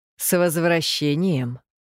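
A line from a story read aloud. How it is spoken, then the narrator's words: Very calm. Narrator (Russian): очень спокойно сказал Янта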